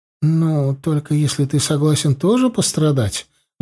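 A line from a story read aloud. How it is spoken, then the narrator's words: Sigh. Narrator (Russian): вздохнула она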